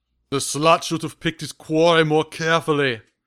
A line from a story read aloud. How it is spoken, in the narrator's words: roared the victor in a mocking baritone growl